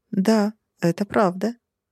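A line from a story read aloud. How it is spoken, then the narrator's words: Calm agreement. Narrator (Russian): спокойно согласилась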